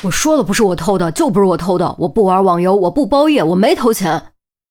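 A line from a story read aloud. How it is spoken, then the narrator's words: Agitated, near shouting. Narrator (Chinese): 孙宏志当时激动起来……几乎是在对着于西吼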